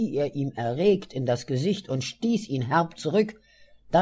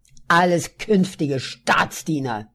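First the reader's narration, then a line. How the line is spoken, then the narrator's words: Still angry. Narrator (German): sagte Adolf, noch immer wütend zu mir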